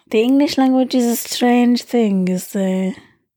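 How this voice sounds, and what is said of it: Silly put-on foreign-sounding accent. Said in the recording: “in a German accent ... I also just do stupid voices that don't mean anything”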